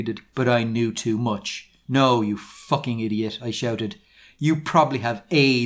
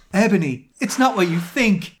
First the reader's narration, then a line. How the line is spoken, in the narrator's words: Draco screamed sadly